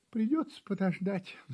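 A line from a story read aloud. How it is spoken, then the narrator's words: Kitten sighing. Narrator (Russian): вздохнул котенок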